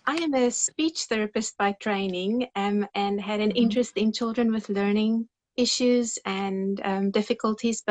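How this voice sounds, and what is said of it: Non-American accent. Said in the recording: “I can kind of hear it and you don't have that typical American accent”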